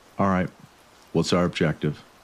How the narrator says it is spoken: asked calmly

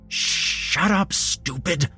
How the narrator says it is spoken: Jeremy hissed

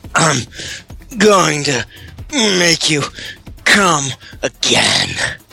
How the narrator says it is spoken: he grunted to her

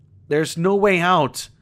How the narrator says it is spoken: James shouts in despair

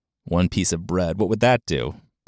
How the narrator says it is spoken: Princess Dogata laughed

